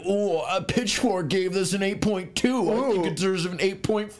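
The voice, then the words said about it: Lame white guy voice. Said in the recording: “You would do like a lame white guy voice.”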